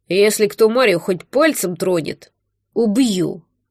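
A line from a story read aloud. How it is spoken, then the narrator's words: Growling. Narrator (Russian): Прорычал богатырь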